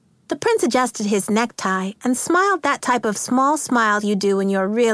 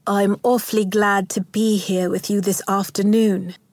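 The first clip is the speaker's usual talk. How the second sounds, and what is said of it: Very posh British accent. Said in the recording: “he began in a very posh accent.”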